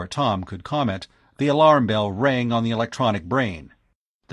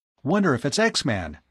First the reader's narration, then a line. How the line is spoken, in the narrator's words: Tom exclaimed